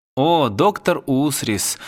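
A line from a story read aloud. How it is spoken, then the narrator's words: Sighing. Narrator (Russian): вздохнул Филарион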